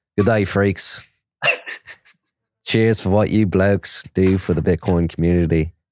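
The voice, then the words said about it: Put-on Australian accent. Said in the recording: “Must read in your best Australian accent.”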